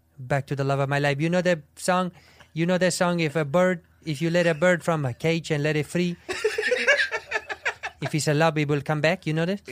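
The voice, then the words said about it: Bad put-on accent, sincere and doughy. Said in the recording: “The accent's terrible. Yeah. Is the accent really, really bad? ... No, but there's something that's sincere great and doughy about it.”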